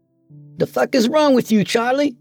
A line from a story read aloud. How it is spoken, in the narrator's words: Nathan yelled